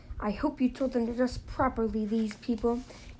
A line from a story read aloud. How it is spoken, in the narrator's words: he snarled at once